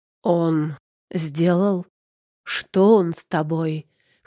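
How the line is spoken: Hoarse. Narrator (Russian): хрипит Тайлер

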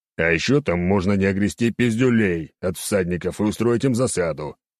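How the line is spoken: Growled reply. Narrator (Russian): рыкнул в ответ

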